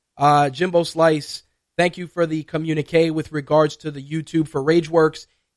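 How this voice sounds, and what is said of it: Raspy, strained voice. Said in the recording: “my voice is a cross between uh, Billy D. Williams and Barack Obama ... give my vocal cords a break because I'm all messed up ... please pardon the slightly raspy voice this week”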